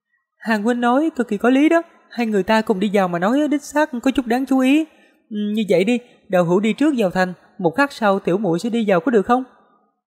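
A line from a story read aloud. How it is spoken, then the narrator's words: Smiling, thoughtful. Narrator (Vietnamese): Tiêm Tiêm suy đoán rồi mỉm cười nói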